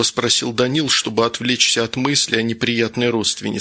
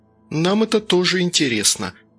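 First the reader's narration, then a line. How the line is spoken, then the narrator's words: Sighing. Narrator (Russian): вздохнула Ботенко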